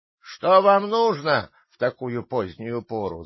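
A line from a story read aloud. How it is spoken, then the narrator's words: Angry shout. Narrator (Russian): закричал он сердито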